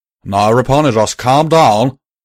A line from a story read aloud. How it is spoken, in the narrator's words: Calamity said loudly